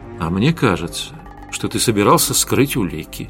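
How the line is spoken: Quiet but menacing. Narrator (Russian): тихо, но угрожающе произнес Костя

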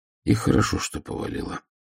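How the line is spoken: Sighing. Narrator (Russian): вздохнул Ваймс

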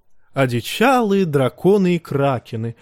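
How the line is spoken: Laughing chuckle. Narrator (Russian): хохотнул Мейстерел

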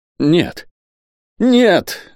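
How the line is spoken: Exclaiming. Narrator (Russian): воскликнул он

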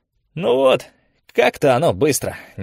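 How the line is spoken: Displeased grumble. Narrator (Russian): недовольно пробурчал Шивайс

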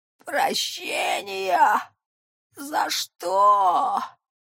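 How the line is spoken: Surprised hoarse old man. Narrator (Russian): Удивленно прохрипел старец Сережа

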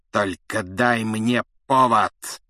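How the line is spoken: Hiss. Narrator (Russian): прошипел Снег

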